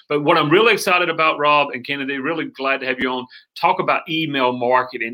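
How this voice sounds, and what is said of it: North Carolina Southern twang. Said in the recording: “my North Carolina Southern twang”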